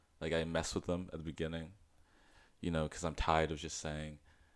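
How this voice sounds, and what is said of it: Mixed American and English accent. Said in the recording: “you have a blend of an American and an English accent”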